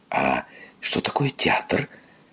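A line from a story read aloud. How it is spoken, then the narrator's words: Worried whisper. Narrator (Russian): обеспокоенно прошептала муми-мама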